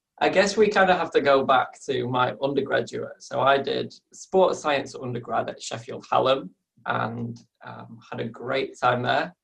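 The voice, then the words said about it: Northern English Yorkshire accent. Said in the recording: “we can tell from your northern accent. ... straight away you pick up that Yorkshire accent, hey, it's still not gone.”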